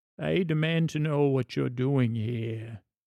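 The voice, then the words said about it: Performs a character's voice. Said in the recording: “Let me see if I can do the voice”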